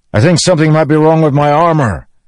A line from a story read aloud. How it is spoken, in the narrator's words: Delanor shouted to him